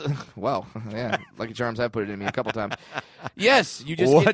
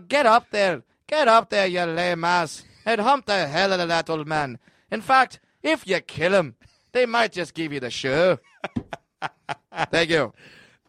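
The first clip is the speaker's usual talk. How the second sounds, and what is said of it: Put-on Irish accent. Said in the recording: “that is an incredible Irish accent”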